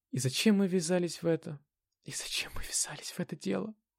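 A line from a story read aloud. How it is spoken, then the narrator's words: Whisper. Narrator (Russian): шепнула Анна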